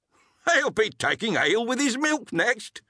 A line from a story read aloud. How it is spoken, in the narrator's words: another cried